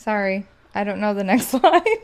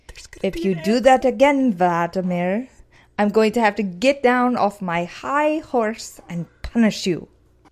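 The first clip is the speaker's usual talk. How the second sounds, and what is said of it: Slow, slurred put-on Russian accent. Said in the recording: “I knew there was going to be an accent. ... It's really hard to find an impression. ... I practice being Russian all week, where I had to talk slow and like ... slur.”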